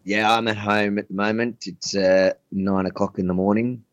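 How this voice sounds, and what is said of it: Australian accent. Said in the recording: “Starting with the accent already, you're gonna crack me up.”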